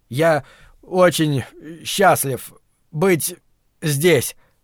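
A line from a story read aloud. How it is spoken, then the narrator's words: Trembling voice. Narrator (Russian): Дрожащим голосом начал Брэд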